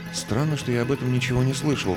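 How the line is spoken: Muttered aloud. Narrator (Russian): пробормотал я вслух

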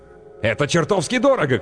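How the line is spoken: Shouting. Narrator (Russian): крикнул мужчина

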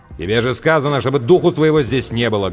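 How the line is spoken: Barking shout. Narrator (Russian): гаркнул Сэм

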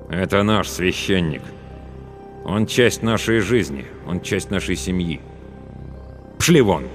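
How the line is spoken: Cold declaration. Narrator (Russian): Главный ликвидатор холодно заявил

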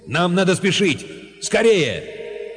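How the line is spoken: Shouted to everyone. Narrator (Russian): Мэнмарк крикнул, обращаясь ко всем

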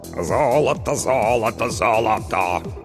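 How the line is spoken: Hoarse bass singing. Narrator (Russian): хриплым басом пропел Толик

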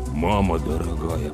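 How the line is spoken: Muttered. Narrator (Russian): пробормотал Слава

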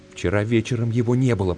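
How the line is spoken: Whispered. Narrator (Russian): прошептал он

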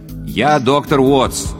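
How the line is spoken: Loud. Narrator (Russian): громко повторил я

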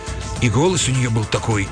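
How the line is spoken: Nervous mumble. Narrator (Russian): переминаясь с ноги на ногу, пробормотал он

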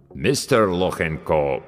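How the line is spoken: Deep bass, mangling name. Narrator (Russian): пробасил авербанкаща, безбожно коверкая фамилию

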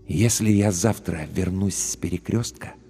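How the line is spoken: Very quiet, distinct whisper. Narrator (Russian): прошептал он очень тихо, но очень отчетливо

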